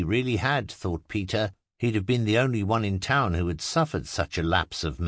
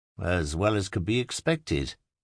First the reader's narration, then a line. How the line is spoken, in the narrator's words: replied Peter dryly